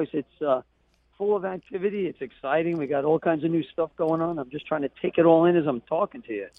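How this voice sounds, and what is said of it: Hoarse, strained voice. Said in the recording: “excuse me, I'm losing my voice.”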